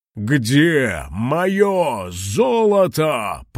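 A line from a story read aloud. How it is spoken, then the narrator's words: Roaring. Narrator (Russian): проревел кулон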